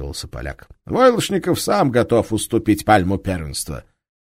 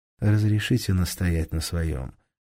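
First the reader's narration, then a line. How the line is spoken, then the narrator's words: Soft objection. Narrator (Russian): мягко возразил Алексей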